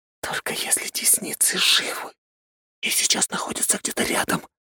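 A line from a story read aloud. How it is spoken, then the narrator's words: Whisper. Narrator (Russian): прошептала она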